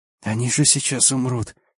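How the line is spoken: Whisper. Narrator (Russian): прошептал Ян

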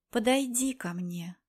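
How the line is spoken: Quiet young woman's voice. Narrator (Russian): тихо произнесла молодая женщина

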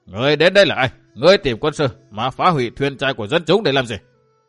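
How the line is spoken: Loud shout. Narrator (Vietnamese): Người huýt sáo lại hét to

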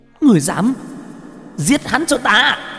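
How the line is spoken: Angry shout. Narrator (Vietnamese): Bạch Liên Thánh Mẫu hét lên tức giận

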